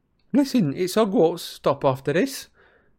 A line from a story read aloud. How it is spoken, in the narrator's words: said Stan brightly